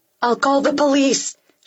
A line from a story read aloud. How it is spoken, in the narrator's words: she yells